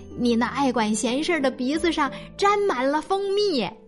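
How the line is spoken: Laughing. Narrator (Chinese): 小牛笑着说

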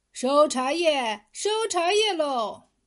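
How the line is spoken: Peddler's loud hawking cry. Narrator (Chinese): 这样的吆喝声

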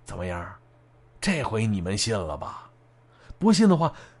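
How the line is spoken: Low, casual question. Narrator (Chinese): 这大脖子是有意无意的低声问了一句

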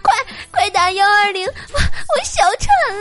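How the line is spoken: Hysterical scream. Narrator (Chinese): 妹子歇斯底里的呼喊道

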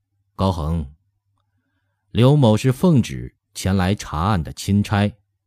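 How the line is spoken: Cold. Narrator (Chinese): 刘统勋冷冷的说道

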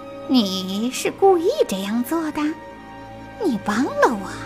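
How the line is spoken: Soft. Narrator (Chinese): 赛克轻声说

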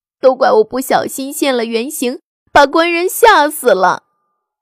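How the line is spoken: Wailing sobs. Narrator (Chinese): 白娘子 就大哭起来

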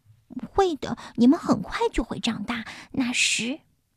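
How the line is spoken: Smiling, confident, soft. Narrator (Chinese): 达芬奇都会微笑着，充满自信地对自己的小翅膀轻声地说

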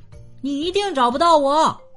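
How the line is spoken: Shouting. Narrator (Chinese): 凯西喊道

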